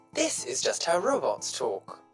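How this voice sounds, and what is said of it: Robot character, English accent. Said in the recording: “Why does he have an English accent? ... That's just how robots talk.”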